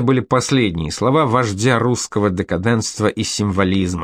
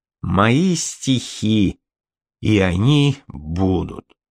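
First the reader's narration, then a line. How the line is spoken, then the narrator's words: Slow, after long pause. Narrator (Russian): после продолжительного молчания медленно произнес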